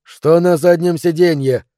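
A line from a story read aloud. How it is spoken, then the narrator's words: Demanding shout. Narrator (Russian): с требовательной интонацией крикнул Тим Торнтон, начальник группы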